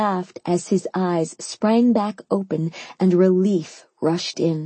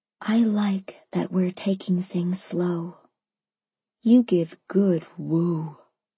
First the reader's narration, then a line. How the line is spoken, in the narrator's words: whispered